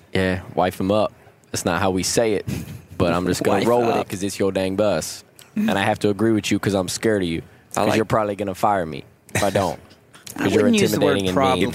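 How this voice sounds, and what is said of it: Put-on accent slipping. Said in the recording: “This accent's gotten away from me.”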